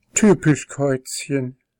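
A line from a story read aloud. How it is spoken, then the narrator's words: Sighing. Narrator (German): seufzte Kitty und kniff gequält die Augen zusammen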